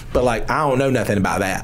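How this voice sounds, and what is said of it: Put-on American country accent. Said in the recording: “I'm going to say it in a country accent”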